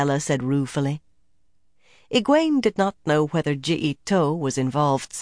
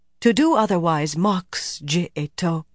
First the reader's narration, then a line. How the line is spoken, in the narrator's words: Nyella said stiffly